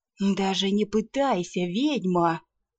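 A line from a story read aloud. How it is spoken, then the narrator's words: Gloating triumphant hiss. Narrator (Russian): Со злорадным торжеством прошипел разбойник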